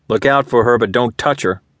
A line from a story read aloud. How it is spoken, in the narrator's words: he'd said, his tone sharp